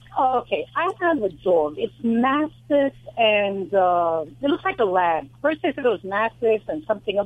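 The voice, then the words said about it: New York accent. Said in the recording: “I hear it in your voice. I hear it in your accent. ... My accent's from New York.”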